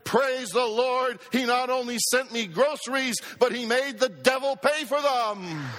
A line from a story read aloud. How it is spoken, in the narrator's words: she shouted